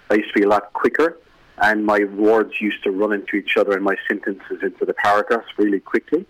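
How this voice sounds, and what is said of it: Irish accent with a lilt. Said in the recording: “there's a little bit of a lilt to our accent... our counties in Ireland”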